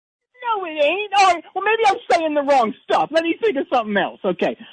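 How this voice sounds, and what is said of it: Usual voice. Nothing is said of it.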